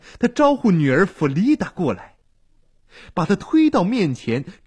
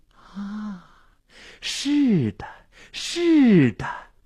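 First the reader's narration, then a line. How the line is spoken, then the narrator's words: Enraptured murmur. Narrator (Chinese): 心醉神迷的喃喃自语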